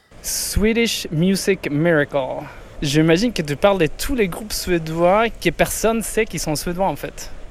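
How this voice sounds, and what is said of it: Swedish accent speaking French. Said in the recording (French): “Avec son plus bel accent”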